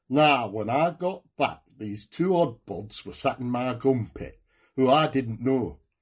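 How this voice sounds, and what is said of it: Nottingham accent. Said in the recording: “you're going to use your Nottingham accent”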